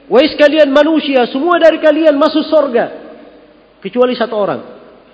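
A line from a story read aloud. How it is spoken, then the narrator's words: Shouted from the sky. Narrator (Indonesian): meneriakkan dari langit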